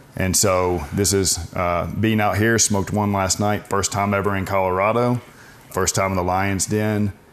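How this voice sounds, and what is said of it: Slight Southern US accent. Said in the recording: “a bit of an accent, so I assume probably somewhere in the South.”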